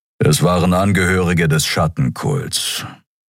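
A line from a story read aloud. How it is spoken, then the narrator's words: Grumbling. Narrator (German): brummte Kero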